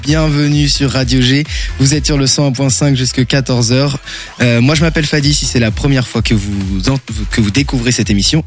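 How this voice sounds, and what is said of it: Tired, worn-out voice. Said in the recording (French): “vous entendez cette voix écrasée par la fatigue de ce week-end”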